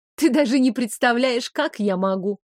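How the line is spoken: Wry snort with crooked smile. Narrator (Russian): хмыкнула, криво улыбаясь

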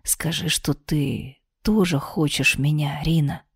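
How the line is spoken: Whispered. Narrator (Russian): прошептал Дарт

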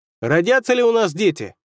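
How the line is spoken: Yelling. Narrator (Russian): заорал человек

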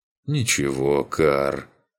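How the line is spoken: Calm reply. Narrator (Russian): спокойно ответил его спутник

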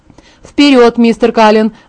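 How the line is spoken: Barked. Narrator (Russian): рявкнул мистер Варнер

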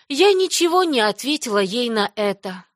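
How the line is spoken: Sad, young girl. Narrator (Russian): грустно сказала девочка Марилле

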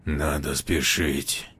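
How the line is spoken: Elder, strained through teeth. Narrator (Russian): с трудом процедил старший

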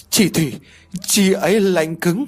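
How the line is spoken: Stammering woman. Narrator (Vietnamese): Cô lắp bắp nói

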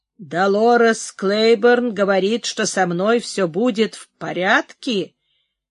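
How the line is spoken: Dry furious voice. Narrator (Russian): повторяет она тем сухим бешеным голосом

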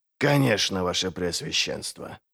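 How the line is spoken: Muttering. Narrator (Russian): пробормотал Глокта

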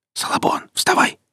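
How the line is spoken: Whispered. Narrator (Russian): шептал тот

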